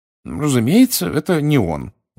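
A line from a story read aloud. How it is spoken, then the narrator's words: Tired reply. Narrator (Russian): устало отвечал мистер Уизли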